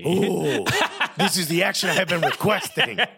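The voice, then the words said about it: Put-on Pepe Le Pew French accent. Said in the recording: “this Pepe Le Pew accent”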